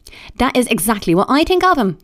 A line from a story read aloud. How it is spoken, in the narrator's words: cried Marianne